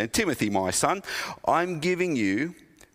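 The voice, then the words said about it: Put-on British accent. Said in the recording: “I made Paul sound kind of British then.”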